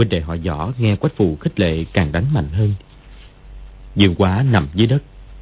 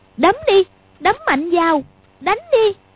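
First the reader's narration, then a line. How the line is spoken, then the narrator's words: Involuntary cry, slightly scared. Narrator (Vietnamese): Quách Phù thấy hai đứa đánh dữ cũng hơi sợ, nhưng sờ lên mặt thấy nóng rát vì cái tát vừa nãy thì bất giác kêu lên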